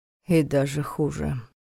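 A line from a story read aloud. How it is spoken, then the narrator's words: Gloomy. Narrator (Russian): мрачно добавил Войтах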